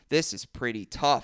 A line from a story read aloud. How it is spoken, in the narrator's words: Floyd grunts, pulling himself up